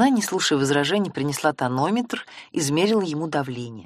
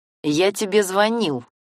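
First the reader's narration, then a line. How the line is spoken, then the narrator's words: Angry speech. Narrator (Russian): зло говорил Семен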